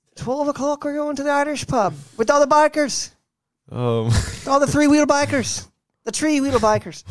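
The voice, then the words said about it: Put-on Irish accent. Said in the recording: “Why is your Irish accent so good? ... That was bad.”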